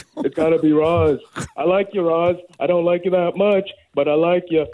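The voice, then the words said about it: Imitates another person's voice. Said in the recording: “your favorite celebrity impression ... It's good old Stone Cold Steve Austin.”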